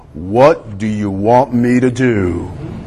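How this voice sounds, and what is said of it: Deep voice. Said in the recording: “a deep voice coming from the sky answered”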